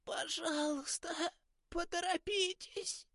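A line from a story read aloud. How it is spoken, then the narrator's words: Hoarse rasp. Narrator (Russian): Прохрипела Кармен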